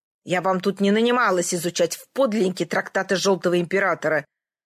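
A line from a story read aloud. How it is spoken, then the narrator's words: Hissed through teeth. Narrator (Russian): Сквозь зубы прошипела врачиха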